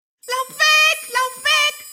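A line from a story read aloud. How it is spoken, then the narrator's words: Magpie shrieking. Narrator (German): kreischte die Elster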